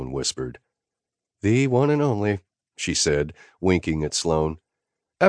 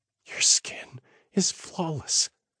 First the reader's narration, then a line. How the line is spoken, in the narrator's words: Sloan whispered